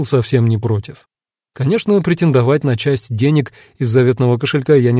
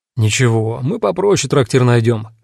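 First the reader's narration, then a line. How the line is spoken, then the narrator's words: Chuckling. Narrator (Russian): хохотнул Бурундук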